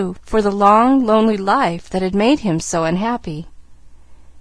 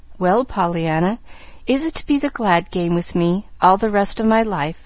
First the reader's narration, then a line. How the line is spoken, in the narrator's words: asked the man gently